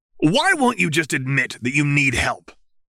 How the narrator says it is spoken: She barked, an uncomfortably upset expression starting to take shape on her features

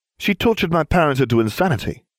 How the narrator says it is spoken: Neville said flatly

